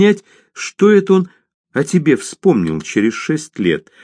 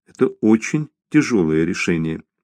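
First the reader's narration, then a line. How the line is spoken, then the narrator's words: Quiet sympathetic voice. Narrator (Russian): тихо сказала Лис с сочувствием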